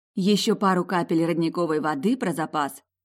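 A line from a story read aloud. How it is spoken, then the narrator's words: Muttered. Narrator (Russian): пробормотала я Ломтику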